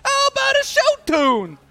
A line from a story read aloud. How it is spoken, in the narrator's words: A bowler shouts out playfully